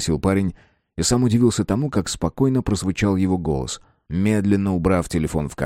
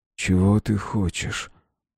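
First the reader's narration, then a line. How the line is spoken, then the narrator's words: Hoarse, barely audible. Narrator (Russian): Голос прозвучал хрипло и едва различимо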